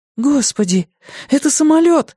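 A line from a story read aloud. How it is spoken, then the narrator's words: Exclaiming. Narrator (Russian): воскликнула она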